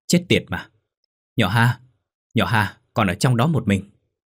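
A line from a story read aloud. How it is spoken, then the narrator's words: Panicked shout while running. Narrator (Vietnamese): cô tức tốc lao quay trở về ngay, miệng hét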